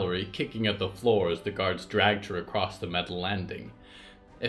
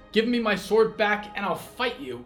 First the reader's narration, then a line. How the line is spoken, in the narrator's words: shouted Riot